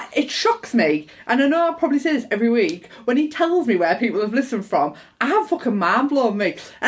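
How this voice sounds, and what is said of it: Squeaky London Borough accent. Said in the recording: “my squeaky Borough accent”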